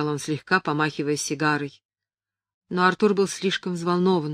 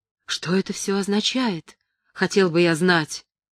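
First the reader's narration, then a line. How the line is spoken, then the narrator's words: Exclamation. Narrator (Russian): воскликнул он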